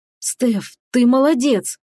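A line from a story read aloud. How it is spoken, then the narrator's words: Hoarse, mercenary. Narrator (Russian): прохрипел наемник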